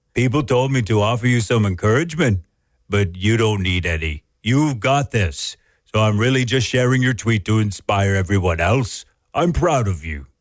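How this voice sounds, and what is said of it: Poor impression of a celebrity's voice. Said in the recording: “terrible impression. ... toward the end, you became more Albus Dumbledore.”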